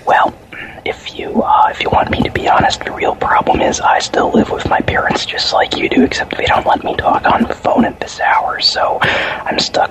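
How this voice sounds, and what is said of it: Whispering. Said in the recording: “whispering and whispering”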